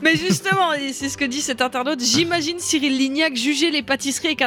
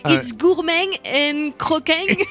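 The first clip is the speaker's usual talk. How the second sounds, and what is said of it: Put-on English accent. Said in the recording (French): “avec un accent anglais”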